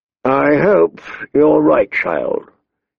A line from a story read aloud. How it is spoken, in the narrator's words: he sighed, in tones that said she was wrong